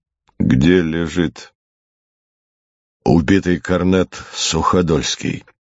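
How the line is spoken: Calm question. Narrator (Russian): генерал спокойно спросил

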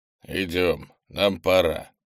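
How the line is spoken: Grumbling. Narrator (Russian): проворчал он

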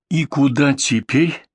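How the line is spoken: Quiet helpless question. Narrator (Russian): тихо спросила Кэт, беспомощно

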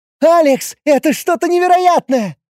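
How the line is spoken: Delighted young woman exclaiming. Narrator (Russian): восторженно воскликнула девушка

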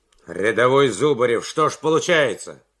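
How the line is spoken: Stern officer's question. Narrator (Russian): строго спросил майор

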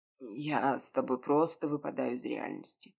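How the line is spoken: Hoarse rasp. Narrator (Russian): прохрипел

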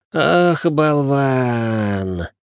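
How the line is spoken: Groaning reply. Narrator (Russian): простонал Ричард в ответ

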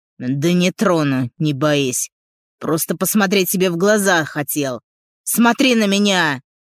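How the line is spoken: Gruff barked shout. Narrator (Russian): Гаркает

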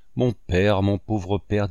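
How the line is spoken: Plain. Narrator (French): dit-elle

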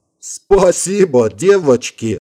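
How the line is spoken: Joyful, grinning. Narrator (Russian): радостно осклабился лейтенант

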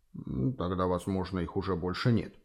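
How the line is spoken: Muttered to himself. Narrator (Russian): пробормотал Малосар скорее для себя, чем обращаясь к профессору

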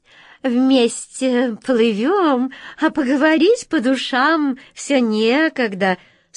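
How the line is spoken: Sugary squeaky cat voice. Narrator (Russian): слащавым голосом пропищала кошка

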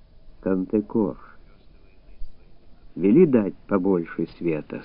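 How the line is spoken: Plain. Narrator (Russian): сказал он

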